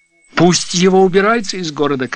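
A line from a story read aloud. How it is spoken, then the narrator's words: Shouting. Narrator (Russian): кричал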